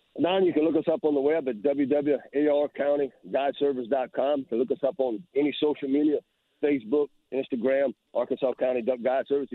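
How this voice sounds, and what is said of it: Cajun accent. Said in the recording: “a guy with a Cajun accent”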